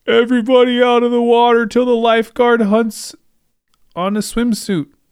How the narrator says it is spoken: hollered

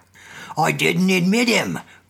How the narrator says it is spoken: grumbled the old man

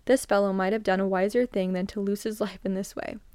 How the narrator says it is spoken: they laughed, and the oldest said

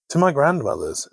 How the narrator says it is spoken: she answered

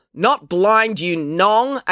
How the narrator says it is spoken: April yelled at Mr

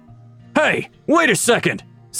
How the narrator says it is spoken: someone yelled out from behind the crowd

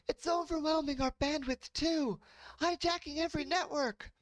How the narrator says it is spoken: Someone across the room yelled out

